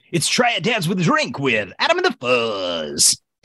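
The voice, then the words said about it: Radio drive-time DJ voice. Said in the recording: “a drive time DJ voice”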